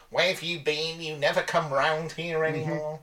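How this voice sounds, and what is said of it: Put-on voice for other people. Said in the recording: “do a bad David Mitchell impression when you do an impression ... it's just my voice that I sometimes do when I'm pretending to be other people”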